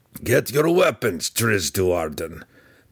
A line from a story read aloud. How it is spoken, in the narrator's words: Belwar growled again